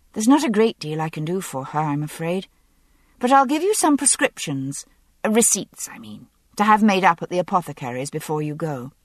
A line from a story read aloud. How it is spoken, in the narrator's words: I said with a sigh